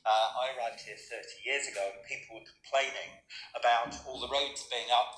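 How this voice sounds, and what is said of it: London accent. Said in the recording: “You probably hear from my accent earlier, I'm a Londoner.”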